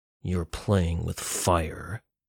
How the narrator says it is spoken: Alex said through clenched teeth

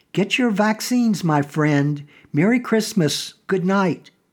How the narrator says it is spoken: exclaim as he drove out of sight

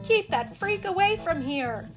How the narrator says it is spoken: the townspeople shouted

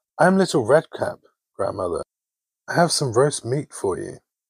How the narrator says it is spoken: the wolf, who tapped and exclaimed

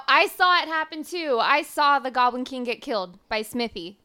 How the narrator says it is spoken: I yell out

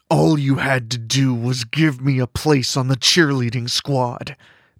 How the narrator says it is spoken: Mandy growls

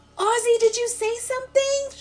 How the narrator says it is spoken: shouts again, interrupting

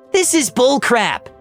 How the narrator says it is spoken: Angela nearly shouted

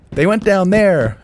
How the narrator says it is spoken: shouted

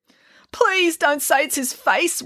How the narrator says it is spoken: wailed

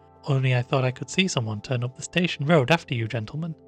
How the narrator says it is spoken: said the Boots

